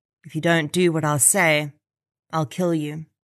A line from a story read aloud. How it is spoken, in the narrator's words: He whispered in her ear